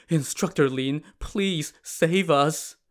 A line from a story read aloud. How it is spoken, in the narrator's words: They pleaded with Lin Chong, saying